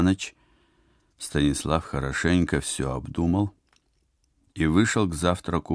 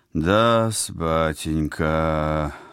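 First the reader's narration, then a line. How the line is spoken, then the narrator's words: Concerned doctorly drawl. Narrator (Russian): озабоченным тоном средневекового эскулапа протянул Вениамин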